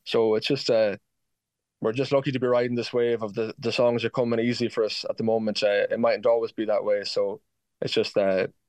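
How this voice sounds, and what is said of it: Excited, enthusiastic voice. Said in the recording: “you can probably hear in my voice, Louise, I'm just incredibly excited about the whole thing.”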